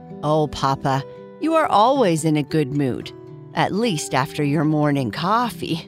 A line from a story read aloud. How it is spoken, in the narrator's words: Bernice said with a laugh